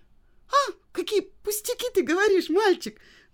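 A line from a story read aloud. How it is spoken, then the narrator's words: Exclaimed. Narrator (Russian): воскликнула Женя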